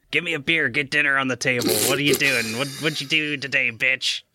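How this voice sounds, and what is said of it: Mocking imitation of another person. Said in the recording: “Is that your Aussie accent? ... No, that's me mocking my wonderful and beautiful fiance.”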